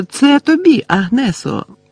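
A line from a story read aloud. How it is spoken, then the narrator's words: Joyful address. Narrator (Ukrainian): радісно звернулася цілителька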